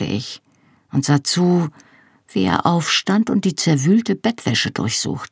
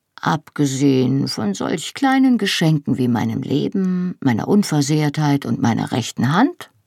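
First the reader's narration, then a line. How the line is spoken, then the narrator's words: Dry, wry. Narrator (German): fragte er trocken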